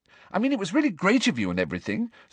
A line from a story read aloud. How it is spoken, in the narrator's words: said Hermione quickly, looking positively petrified